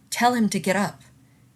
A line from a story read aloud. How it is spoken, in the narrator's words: she snapped at Weir